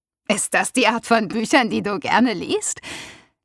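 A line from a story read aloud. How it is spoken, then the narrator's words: Laughing. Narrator (German): Lachend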